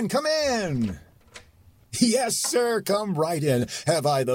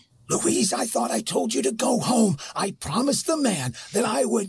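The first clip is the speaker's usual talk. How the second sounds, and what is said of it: Loud whisper. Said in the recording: “Don't shout in such a loud whisper.”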